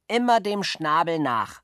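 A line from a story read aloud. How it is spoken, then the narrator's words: Called out. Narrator (German): rief er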